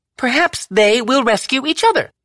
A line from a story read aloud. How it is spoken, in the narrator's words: Violette snapped back